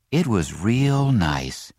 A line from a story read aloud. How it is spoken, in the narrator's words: said Jessie with a sigh